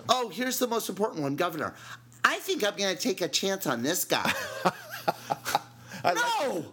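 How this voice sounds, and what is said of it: Effete, lilting put-on accent. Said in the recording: “I like your little the right hand lilt there at, yeah, at the time that you made that. ... With that beautifully effete accent”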